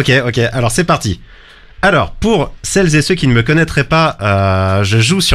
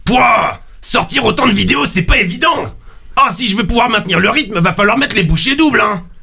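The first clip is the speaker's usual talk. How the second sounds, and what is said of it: Gruff deep character voice. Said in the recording (French): “un personnage qui s'appelle le Bourrin. Le Bourrin qui parle un peu avec la grosse voix. Et je vais maintenant utiliser cette grosse voix”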